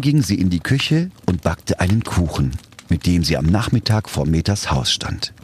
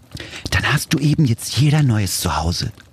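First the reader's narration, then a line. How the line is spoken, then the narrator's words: Whispered to someone. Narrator (German): flüsterte zu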